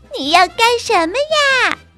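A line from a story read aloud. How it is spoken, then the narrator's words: Loud complaining. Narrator (Chinese): 汉娜大声的抱怨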